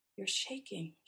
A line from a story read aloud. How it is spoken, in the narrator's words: she says